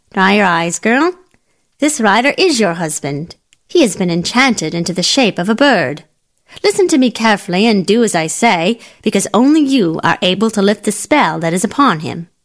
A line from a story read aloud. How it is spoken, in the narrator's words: The old woman, who was something of a wise woman, said sharply